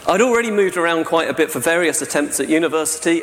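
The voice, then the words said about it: Southern English accent, not Welsh. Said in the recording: “as you can tell from my accent, I'm not Welsh. You know? I grew up down by Gatwick Airport”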